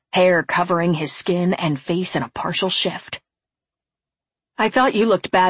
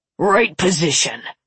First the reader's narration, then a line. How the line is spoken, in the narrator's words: he snarled